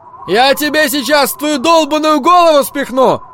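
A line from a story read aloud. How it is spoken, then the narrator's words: Yell. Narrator (Russian): заорал фараон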